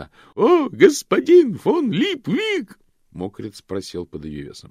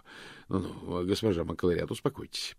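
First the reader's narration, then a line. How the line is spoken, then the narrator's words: Muttered. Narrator (Russian): пробормотал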